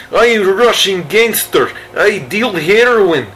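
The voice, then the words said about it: Put-on Russian gangster accent. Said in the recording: “that accent, better than his. More bona fide than his.”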